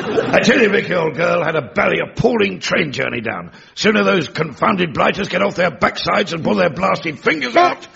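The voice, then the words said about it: Posh upper-class English accent. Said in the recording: “Have you been taking elocution lessons? ... our time apart seems to have done the most interesting things to your German accent. You sound just like...”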